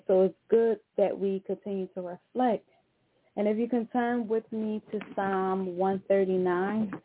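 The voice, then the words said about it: Out of breath, amped-up speech. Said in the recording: “I don't know why I'm like this out of breath. I'm getting, y'all know I get too amped up and too hyped.”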